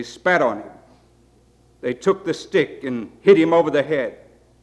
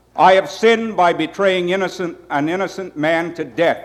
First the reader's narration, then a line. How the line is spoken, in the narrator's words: said